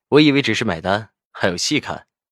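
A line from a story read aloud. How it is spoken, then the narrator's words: Faint laugh. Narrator (Chinese): 赵以静淡淡笑道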